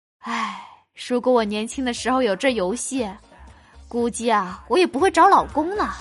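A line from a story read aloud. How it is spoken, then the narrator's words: Mother sighing wistfully. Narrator (Chinese): 我妈伸出一口气，感叹道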